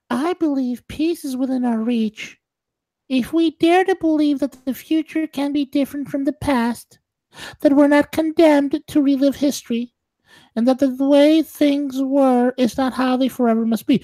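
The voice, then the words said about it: Imitates another person's voice. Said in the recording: “let me put on my Jared Kushner voice.”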